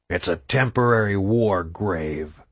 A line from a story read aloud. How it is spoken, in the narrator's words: Hoffman growled